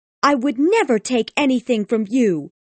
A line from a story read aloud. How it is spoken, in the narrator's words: Tess spat her words at Alec